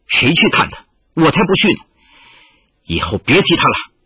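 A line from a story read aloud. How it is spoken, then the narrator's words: Sudden anger. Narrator (Chinese): 玉罗刹突然怒道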